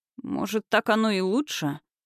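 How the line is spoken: Muttered. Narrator (Russian): пробормотал Кириллыч

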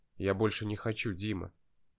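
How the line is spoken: Quiet, trembling voice. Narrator (Russian): тихо заговорил я дрожащим голосом

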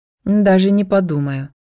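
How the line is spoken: Haughty snort. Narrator (Russian): высокомерно фыркнула женщина

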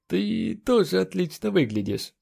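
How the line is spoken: Forced out, strained. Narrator (Russian): выдавил он

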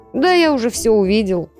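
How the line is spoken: Snorting. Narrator (Russian): хмыкнул

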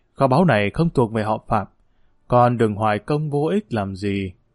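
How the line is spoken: Soft sighing. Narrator (Vietnamese): Lương Nghi Phạm Vĩnh Thanh khẽ thở dài nói

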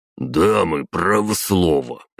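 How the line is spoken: Grumbling. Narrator (Russian): проворчал Воробьев

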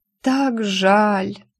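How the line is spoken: Moan then hopeful whisper. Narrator (Russian): простонала и с надеждой прошептала

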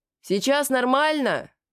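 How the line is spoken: Shouted with a smile. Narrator (Russian): прокричал Ахилот, улыбаясь

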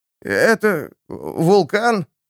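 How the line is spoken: Uncertain question. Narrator (Russian): неуверенно спросил механик

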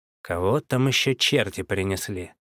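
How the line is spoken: Angry, through teeth. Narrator (Russian): Зло процедил

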